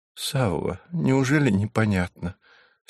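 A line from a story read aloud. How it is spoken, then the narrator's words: Weak voice. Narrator (Russian): слабым голосом сказала она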